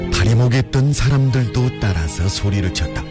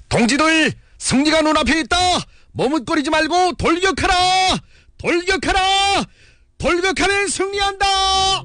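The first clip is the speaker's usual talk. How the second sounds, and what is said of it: Clear, ringing shouted voice. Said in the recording (Korean): “맑고 카랑카랑한 목소리로 외치었다”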